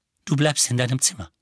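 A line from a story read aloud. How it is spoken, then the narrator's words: Plain. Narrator (German): sagte sie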